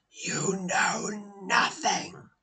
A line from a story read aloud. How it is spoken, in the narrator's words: He hisses through cracked lips, his jaw trembling as he speaks